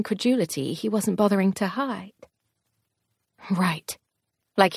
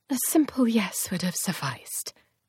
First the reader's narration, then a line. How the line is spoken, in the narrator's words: I said quietly